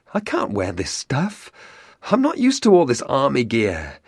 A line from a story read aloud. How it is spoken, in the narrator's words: Pretty soon he gasps